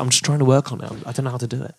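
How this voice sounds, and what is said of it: British-ish accent. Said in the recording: “What's going on with your voice, dude? ... I thought you had like a... British-ish accent”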